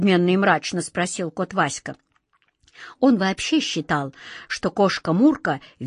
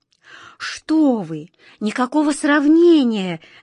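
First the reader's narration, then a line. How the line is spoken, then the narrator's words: Fervent exclamation. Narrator (Russian): горячо воскликнула ласточка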